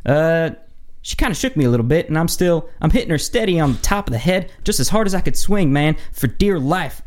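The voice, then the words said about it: Put-on fast Southern North Carolina accent. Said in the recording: “read it like a North Carolina. What's the North Carolina accent? Is it really Southern? ... Southern, but fast.”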